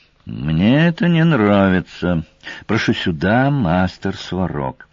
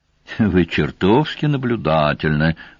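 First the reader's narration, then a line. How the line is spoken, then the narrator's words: Sighed. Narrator (Russian): вздохнул Сварог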